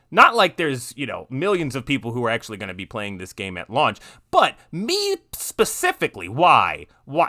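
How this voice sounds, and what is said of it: Sarcastic tone. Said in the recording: “if you can't understand the sarcasm in my voice ... I'm trying to make it very, very, you know, obtuse and very just in your face ... I'm being sarcastic”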